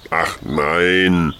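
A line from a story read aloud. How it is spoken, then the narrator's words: Distant groan. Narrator (German): stöhnte die ferne Stimme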